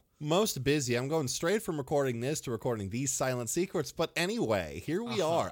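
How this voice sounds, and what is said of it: Formal news-anchor style voice. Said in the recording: “I've still got my news voice on, apparently. ... You sure do.”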